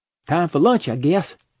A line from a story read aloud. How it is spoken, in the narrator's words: said cheerfully